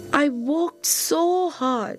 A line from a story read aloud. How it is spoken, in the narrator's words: she said sadly